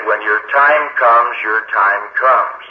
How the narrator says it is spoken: calmly and coolly said

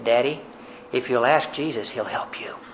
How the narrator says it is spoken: whispered in my ear, and he said

